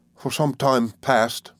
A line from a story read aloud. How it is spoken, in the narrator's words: Ham faltered